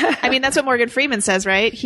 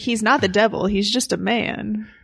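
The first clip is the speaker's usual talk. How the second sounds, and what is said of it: Imitates another person's voice. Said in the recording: “my Morgan Freeman impression ... That's pretty good.”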